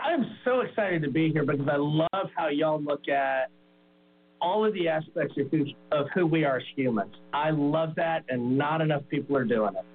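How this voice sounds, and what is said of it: Southern American drawl. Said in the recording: “I love the Southern accent ... that Southern drawl”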